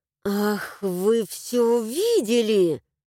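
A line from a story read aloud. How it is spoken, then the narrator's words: Indignant hiss. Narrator (Russian): Возмущенно зашипела я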